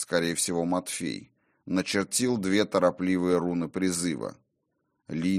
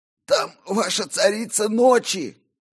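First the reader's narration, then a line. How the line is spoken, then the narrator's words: Hoarse wheeze. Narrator (Russian): просипел он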